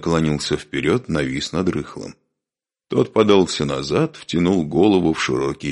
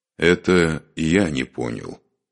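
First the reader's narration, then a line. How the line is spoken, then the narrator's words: Slow speech. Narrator (Russian): медленно проговорил Духарев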